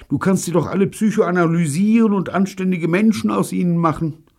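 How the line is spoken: Called out. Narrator (German): rief David

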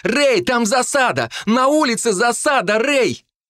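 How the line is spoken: Shouting. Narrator (Russian): девушка прокричала

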